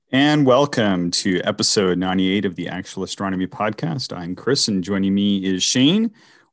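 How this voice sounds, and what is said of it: Rough, hoarse voice. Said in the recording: “My voice is a bit rough this week.”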